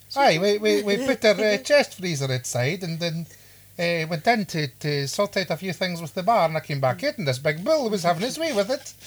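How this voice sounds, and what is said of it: Put-on Scottish Highland accent. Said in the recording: “my random Highland accent”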